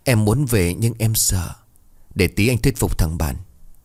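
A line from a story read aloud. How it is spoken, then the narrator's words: Soft, halting. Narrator (Vietnamese): Hương bấy giờ khẽ nói hơi đứt quãng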